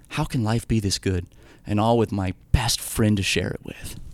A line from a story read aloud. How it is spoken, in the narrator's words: Ryan softly whispered